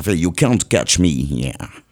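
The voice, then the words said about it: Exaggerated put-on English accent, gum-chewing. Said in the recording (French): “accent, je mange mon chewing-gum ... c'est de l'accent. Un peu exagéré”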